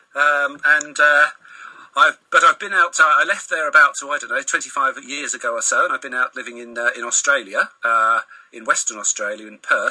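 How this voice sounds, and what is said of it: English home counties accent. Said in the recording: “My accent gives me away as being someone from the home counties”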